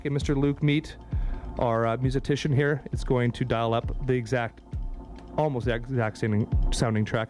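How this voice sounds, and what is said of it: Congested, stuffy voice. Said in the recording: “I have a cold. ... I've got a cold.”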